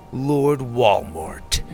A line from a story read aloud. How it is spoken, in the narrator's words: Winston growled